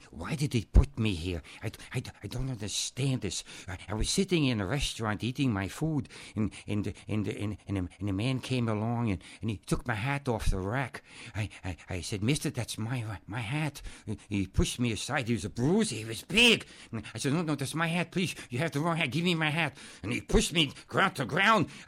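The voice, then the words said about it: Imitates another person's voice. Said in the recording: “my impersonation of Peter Lorre”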